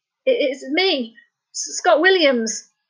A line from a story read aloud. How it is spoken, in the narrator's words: Scott stammered